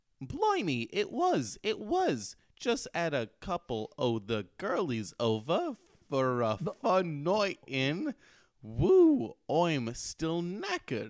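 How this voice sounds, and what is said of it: Slow reading in put-on accent. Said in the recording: “I like how slow you read that. Just so you can get the accent across.”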